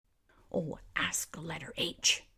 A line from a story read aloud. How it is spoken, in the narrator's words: snapped the letter O